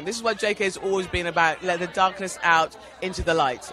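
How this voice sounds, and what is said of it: London English accent. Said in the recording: “that's a London accent, I think. So first you're a foreigner”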